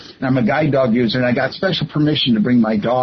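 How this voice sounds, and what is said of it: Usual voice. Nothing is said of it.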